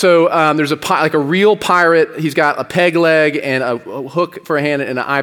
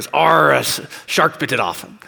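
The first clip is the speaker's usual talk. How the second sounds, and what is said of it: Put-on pirate accent. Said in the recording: “My pirate accent's really good.”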